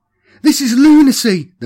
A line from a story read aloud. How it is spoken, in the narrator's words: cried, struggling to push herself between the pair